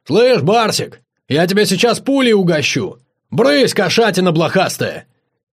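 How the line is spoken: Shout. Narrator (Russian): Барс закричал

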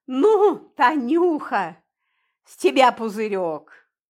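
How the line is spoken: Laughing. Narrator (Russian): смеясь, сказал

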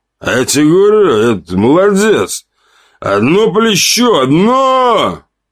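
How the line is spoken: Loud call to a table. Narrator (Russian): выкрикнул он, обращаясь ко всему столу

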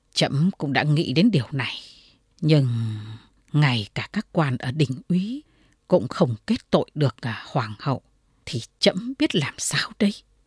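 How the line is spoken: Troubled sigh. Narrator (Vietnamese): lòng Cao Tông rối như tơ vò, thở dài

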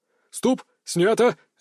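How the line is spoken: Director barking. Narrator (Russian): рявкнул режиссер

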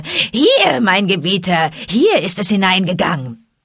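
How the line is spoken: Shrill calling after. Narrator (German): Tabaki rief hinter ihm her mit schriller Stimme

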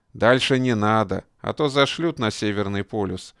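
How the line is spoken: Chuckling. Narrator (Russian): хохотнул Челобаев

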